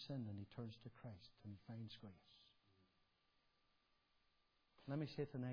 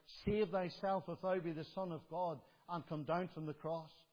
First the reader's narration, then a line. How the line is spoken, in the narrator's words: they shouted out